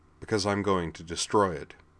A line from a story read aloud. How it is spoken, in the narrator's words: he said flatly